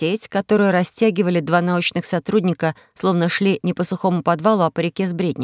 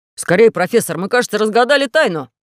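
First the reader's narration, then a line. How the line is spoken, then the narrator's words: Young man exclaiming. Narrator (Russian): воскликнул молодой человек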